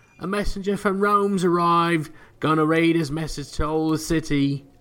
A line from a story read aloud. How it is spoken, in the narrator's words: A boy shouts